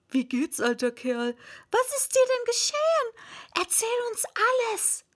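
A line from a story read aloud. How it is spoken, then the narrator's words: Small weak squeaky voice. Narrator (German): kam eine kleine, schwache, quiekende Stimme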